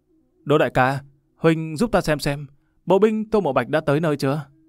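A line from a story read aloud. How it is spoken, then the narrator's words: Said with a smile. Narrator (Vietnamese): mỉm cười nói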